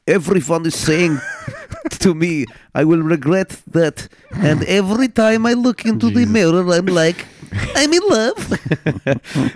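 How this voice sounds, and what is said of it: Imitates another person's voice with accent. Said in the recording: “I'm going to do it in her voice... Not the accent that I just did.”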